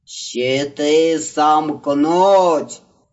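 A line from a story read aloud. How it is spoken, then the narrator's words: Roar from behind. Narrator (Russian): проревел сзади голос антипода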